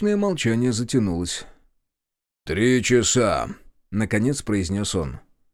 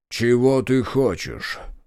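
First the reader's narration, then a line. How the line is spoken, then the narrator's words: Muffled question. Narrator (Russian): глухо спросил он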